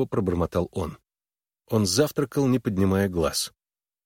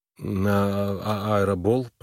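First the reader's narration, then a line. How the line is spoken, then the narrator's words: Mumbled. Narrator (Russian): промямлил он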